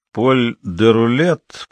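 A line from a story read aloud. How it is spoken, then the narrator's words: Irritated mutter. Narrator (Russian): пробурчал Кензи с ноткой раздражения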